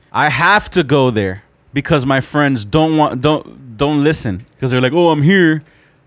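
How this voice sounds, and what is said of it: Yelling. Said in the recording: “why are you yelling at me? ... I'm yelling at the mic”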